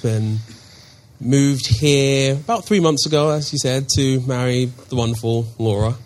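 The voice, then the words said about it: London English accent. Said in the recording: “As you can tell by my funny accent, I'm not from around here. ... Originally born and raised in London.”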